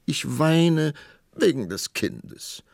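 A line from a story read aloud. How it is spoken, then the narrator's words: Queen sobbing. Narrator (German): schluchzte die Königin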